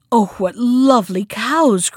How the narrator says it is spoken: cried Helga again

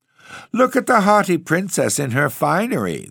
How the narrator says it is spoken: they cried, and laughing

